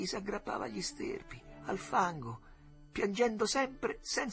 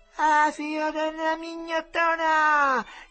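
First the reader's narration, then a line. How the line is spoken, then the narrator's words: Fearful laughing shrieks. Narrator (Italian): strillarono, ridendo, per paura che gli gettasse in acqua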